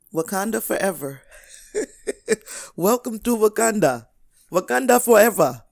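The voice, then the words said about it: Poor put-on Wakandan accent. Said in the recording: “I know that's a horrible accent”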